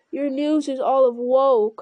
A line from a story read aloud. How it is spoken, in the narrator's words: cried Eomer in dismay